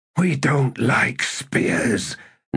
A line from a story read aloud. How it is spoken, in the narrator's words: Nappet hissed